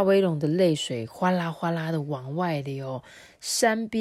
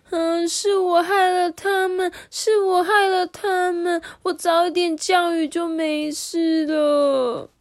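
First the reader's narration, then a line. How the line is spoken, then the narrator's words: Sad wailing. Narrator (Chinese): 沙威龙伤心的哭喊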